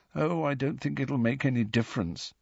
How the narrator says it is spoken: said Neville, still more miserably

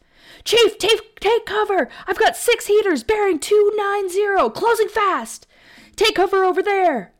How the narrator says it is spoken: yelled

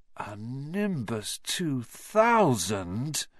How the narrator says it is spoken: Ron moaned enviously

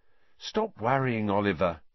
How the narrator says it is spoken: said Alicia soothingly

